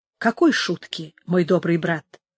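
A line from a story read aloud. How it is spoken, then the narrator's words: Plain. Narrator (Russian): спросил Антонио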